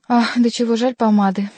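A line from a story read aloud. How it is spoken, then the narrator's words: Sighing. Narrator (Russian): вздохнул Шико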